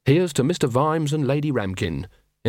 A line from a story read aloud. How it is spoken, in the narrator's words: in a clear, sincere voice